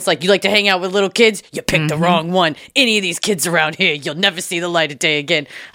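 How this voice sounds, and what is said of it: Put-on Tony Soprano style accent. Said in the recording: “I don't know why I'm doing that accent. I just, probably because of Tony Soprano.”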